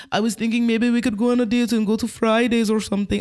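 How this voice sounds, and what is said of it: Put-on Polish accent. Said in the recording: “what's that accent? ... Polish. ... is that Israeli?”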